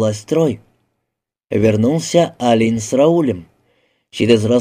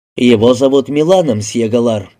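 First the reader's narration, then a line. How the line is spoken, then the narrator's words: Plain. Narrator (Russian): сказал Алин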